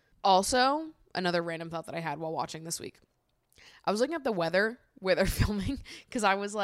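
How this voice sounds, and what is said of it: Usual voice. Nothing is said of it.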